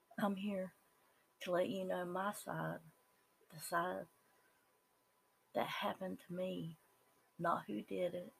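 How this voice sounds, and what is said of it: Southern American accent. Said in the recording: “that's that Southern coming out ... I am a normal Southern person. And I say Southern because that's my accent”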